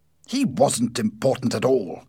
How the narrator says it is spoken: said Ossipon angrily

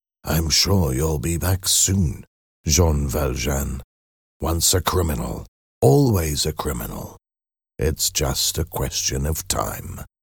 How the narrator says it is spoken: Inspector Javert caught his arm and said to him in a low whisper

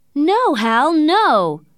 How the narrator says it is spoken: shouted Mercedes

